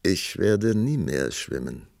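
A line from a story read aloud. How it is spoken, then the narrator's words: Calm reply. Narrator (German): antwortete der Prinz ruhig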